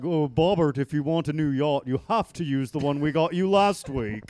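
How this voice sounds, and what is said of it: Imitates another person's voice. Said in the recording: “That's a good impression of Bobby's dad.”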